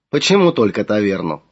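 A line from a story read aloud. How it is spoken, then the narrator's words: Laughed. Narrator (Russian): рассмеялся он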